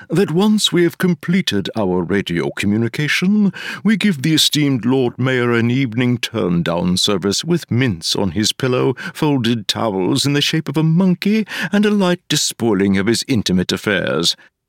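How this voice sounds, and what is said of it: Upper-class old-money accent. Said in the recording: “giving it a nice upper-class fifth-octant old-money accent”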